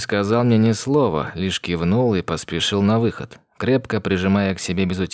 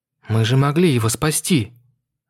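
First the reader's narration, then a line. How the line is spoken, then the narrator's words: Exclaimed. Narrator (Russian): воскликнула Мэйлин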